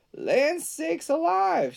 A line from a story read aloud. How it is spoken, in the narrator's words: exclaimed